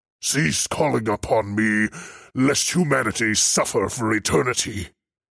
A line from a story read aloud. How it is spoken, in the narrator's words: he bellowed